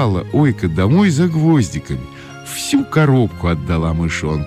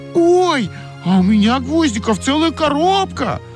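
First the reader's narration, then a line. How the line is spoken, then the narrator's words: Shouted. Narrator (Russian): закричала Ойка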